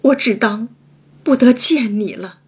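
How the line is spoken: Choked, sobbing, overwhelmed. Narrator (Chinese): 又惊又喜，又悲又痛 哽咽了半日，方说出半句话来

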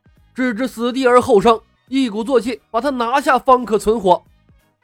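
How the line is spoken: Decisive shout. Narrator (Chinese): 他当机立断喊道

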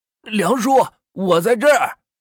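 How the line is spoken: Calling out. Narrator (Chinese): 王峰说道，同时招了招手喊道

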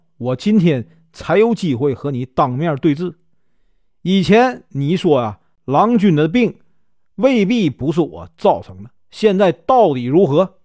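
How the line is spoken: Smiling. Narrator (Chinese): 莲香笑着说

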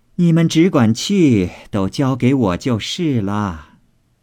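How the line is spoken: Laughing. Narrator (Chinese): 凤姐笑道

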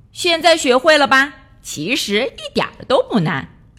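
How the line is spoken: Laughing. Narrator (Chinese): 瑞奇笑着说

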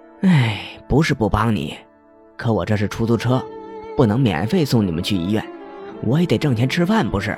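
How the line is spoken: Sighing. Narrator (Chinese): 瘦脸男呼叹了一口气

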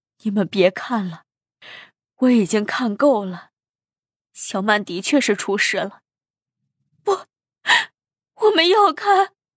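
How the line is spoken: Crying, pleading. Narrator (Chinese): 盛太太哭着劝道

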